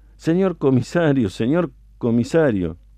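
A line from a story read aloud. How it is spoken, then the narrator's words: Faint, trembling, humble murmur. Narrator (Spanish): Bañado en sangre, tembloroso y humilde, apenas atinaba a murmurar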